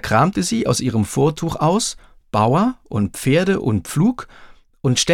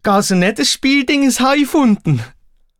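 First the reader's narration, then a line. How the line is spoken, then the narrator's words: Giant's daughter calling out. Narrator (German): rief die Riesentochter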